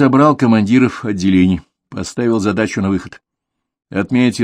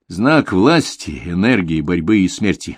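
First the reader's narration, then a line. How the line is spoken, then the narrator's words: Plain. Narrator (Russian): сказал ему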